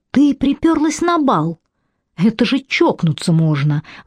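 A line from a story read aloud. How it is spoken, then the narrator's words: Exclamation dropping to whisper. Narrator (Russian): воскликнула Шей, спохватилась и перешла на шепот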